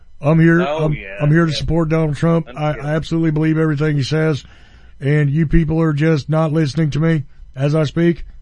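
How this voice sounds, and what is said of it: Deep-voiced imitation of another person. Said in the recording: “my Sarah Sanders impression. ... She's got more bass than that long-bearded guy from the Oak Ridge Boys”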